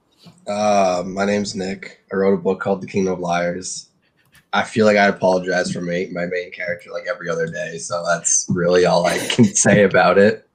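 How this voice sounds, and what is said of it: Flat, unenthusiastic tired delivery. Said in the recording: “You sound so enthusiastic. ... I'm a little tired”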